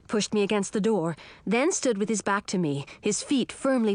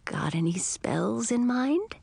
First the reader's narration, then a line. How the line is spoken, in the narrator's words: Edric said so softly that I could hardly hear him